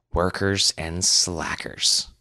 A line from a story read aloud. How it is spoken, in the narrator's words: Wes muttered to himself